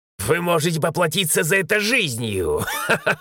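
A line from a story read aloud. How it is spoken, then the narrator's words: Objected with defiant laugh. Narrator (Russian): Возразил он и засмеялся так вызывающе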